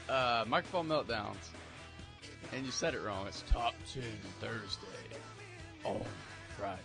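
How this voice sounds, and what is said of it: Exaggerated radio announcer voice. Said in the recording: “Is the radio voice bad?”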